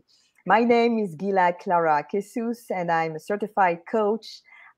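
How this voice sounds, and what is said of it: French accent. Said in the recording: “being French, I will not remove my French accent, but I will not try to make it too heavy for you to fully understand me”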